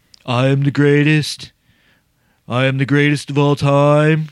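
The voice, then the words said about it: Imitates another person's voice. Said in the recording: “You guys know who I'm imitating. Bad imitation”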